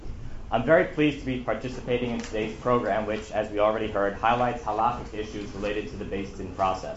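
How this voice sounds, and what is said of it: Sick, strained voice. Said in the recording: “I'm a little bit under the weather, and my voice is less than perfect.”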